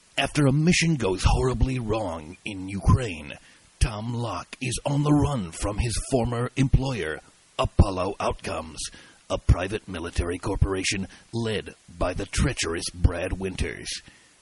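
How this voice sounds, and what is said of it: Dramatic movie trailer announcer voice. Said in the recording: “in my trailer announcer voice”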